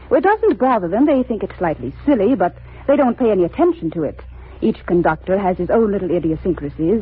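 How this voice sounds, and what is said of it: British accent. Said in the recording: “You both have a decided British accent.”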